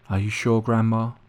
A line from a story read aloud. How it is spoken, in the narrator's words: I asked